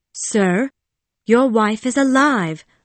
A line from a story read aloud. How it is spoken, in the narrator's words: I said firmly